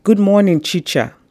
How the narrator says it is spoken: he shouted his greeting to me

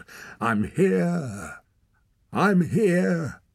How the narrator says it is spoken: howled

